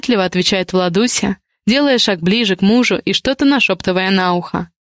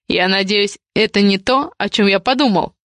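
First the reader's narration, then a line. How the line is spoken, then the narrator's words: Stern question. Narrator (Russian): спрашивает строго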